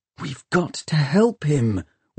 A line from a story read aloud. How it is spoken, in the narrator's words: whispered Tom